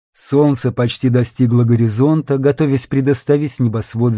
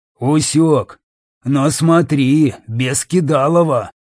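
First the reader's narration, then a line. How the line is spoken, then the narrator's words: Big man's growl. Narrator (Russian): прорычал здоровяк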